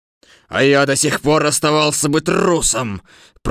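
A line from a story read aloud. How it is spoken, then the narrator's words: Roaring. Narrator (Russian): проревел лев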